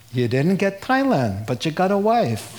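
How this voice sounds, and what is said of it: Put-on Jewish accent. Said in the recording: “God speaks with a Jewish accent”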